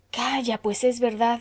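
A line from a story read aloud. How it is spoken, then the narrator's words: Group exclaiming. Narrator (Spanish): exclamaron todos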